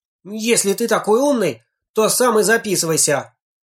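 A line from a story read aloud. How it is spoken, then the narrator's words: Frustrated shout. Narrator (Russian): Не найдя иных доводов, он крикнул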